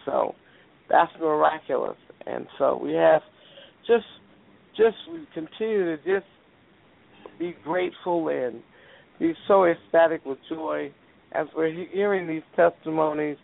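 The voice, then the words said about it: Labored, scratchy voice. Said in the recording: “you can hear my voice is kind of labored and scratchy”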